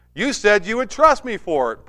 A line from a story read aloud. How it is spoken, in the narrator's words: Parker yelled back